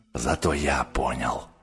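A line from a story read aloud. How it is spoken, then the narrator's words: Barely audible whisper. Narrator (Russian): прошептал Гатторн, но так тихо, что его никто не расслышал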